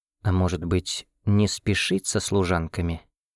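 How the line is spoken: Barely audible breathy whisper. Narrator (Russian): Едва уловимым шепотом выдохнула она

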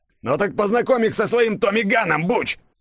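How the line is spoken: Roaring. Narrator (Russian): Взревел лицо со шрамом

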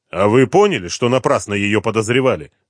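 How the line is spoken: Angry question. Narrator (Russian): зло спросил Дронго

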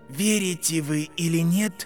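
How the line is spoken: Quiet boy. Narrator (Russian): тихо сказал мальчик

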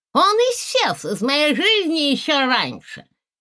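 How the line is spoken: Lisping reply. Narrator (Russian): ответила Маргошка шепеляве

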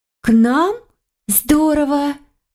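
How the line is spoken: Incredulous exclamation. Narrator (Russian): не веря своим ушам, воскликнула Катарина

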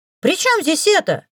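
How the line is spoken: Piglike squealing. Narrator (Russian): Теперь уже он так визжал, что мое воображение невольно нарисовало поросенка

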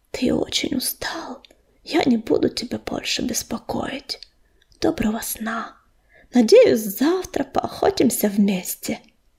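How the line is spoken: Whisper. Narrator (Russian): прелестная кошечка прошептала

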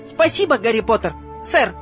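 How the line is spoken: Happy squeak. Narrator (Russian): пропищал радостно Добби

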